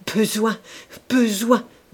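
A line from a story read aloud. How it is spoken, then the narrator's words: Stammered. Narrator (French): balbutia-t-il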